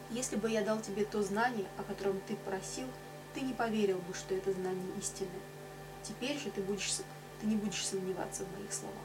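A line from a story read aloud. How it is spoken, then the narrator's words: Calm, composed answer. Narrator (Russian): Васиштха ответил ему спокойно и невозмутимо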